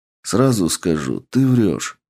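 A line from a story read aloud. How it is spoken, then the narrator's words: Calm. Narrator (Russian): спокойно произнес я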